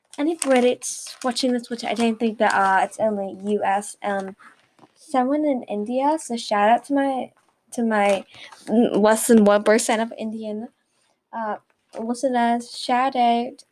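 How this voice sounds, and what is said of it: Awkward put-on British accent. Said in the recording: “Oh my god, it sounds awful... what is this accent I am doing?”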